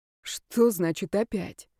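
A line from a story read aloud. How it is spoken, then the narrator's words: Quiet question. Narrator (Russian): тихо спросил Ярослав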